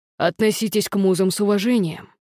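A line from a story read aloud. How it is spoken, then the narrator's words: Hiss. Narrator (Russian): прошипел он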